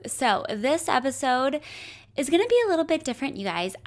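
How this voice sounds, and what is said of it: Raspy, partly lost voice. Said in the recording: “my voice sounds a little bit raspy. I'm dealing with a slight cold that I'm getting over, and for some reason, I've lost my voice”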